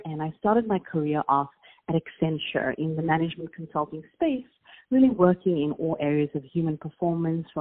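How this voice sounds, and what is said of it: South African accent. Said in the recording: “my accent, but I'm South African”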